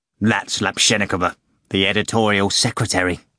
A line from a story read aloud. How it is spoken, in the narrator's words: sneered Ivan